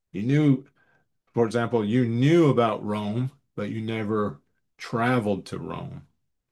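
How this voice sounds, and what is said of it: Southern accent. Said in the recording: “I have a southern accent”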